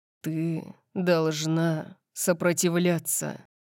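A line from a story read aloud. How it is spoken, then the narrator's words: Growled. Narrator (Russian): прорычал он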